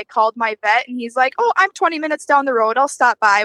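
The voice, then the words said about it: Slight Wisconsin accent. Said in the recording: “People in Wisconsin are so nice ... My little bit of my accent is coming out”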